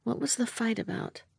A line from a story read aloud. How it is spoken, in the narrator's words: He sighed